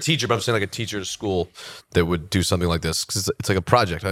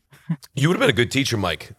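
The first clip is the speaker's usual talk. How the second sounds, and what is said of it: Voice cracks mid-sentence. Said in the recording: “My voice cracked”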